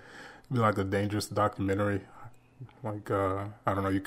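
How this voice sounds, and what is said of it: Usual voice. Nothing is said of it.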